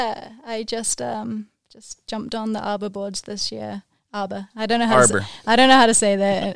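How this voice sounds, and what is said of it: Usual voice. Nothing is said of it.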